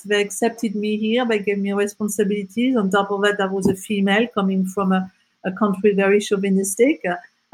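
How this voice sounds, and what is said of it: French accent. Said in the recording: “I'm a French citizen with a French accent”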